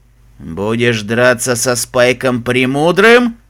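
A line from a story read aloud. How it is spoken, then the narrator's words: Dragon growling. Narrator (Russian): прорычал черный дракон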